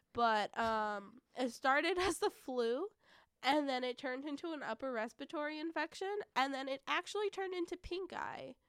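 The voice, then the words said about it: Hoarse, raspy sick voice. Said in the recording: “I've been sick as I'm sure many of our listeners can hear in my voice it sounds like I smoked 10 a day”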